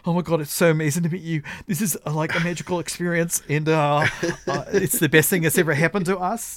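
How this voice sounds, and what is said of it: Imitated New Zealand accent. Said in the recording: “your New Zealand accent is impeccable... It's incredible. You have the nuance... what is that, British?”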